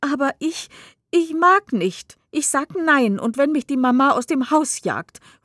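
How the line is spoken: Exclaims repeatedly. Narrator (German): ruft Rosalie ein ums andere Mal aus

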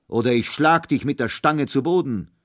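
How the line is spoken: Thundering shout. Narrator (German): rief Holländer Michel mit donnernder Stimme

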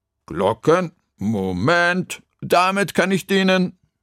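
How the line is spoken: Calling out. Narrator (German): rief Frau Krüger

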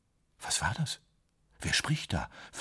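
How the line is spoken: Barely audible whisper. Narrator (German): flüsterte er kaum hörbar

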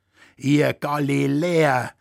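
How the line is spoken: Laughing exclamation. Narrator (German): rief Pladl lachend aus

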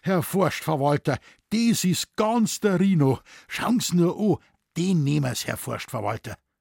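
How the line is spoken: Excited. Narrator (German): sagte aufgeregt

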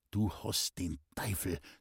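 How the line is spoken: Angry hiss through teeth. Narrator (German): zischte es ärgerlich durch die Zähne des Burschen

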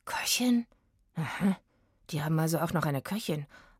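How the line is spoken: Muttering to himself. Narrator (German): murmelte Oliver mehr zu sich selbst als zu Eggy

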